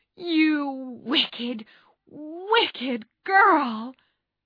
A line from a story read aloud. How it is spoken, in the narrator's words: cried Joe